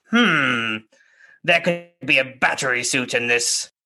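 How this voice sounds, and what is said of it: Sleazy lawyer character voice. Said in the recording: “I'm going to do my sleazy voice”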